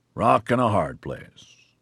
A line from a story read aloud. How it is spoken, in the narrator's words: Gore grunted